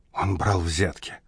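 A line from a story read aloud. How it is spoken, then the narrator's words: Whispered. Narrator (Russian): прошептала Амелия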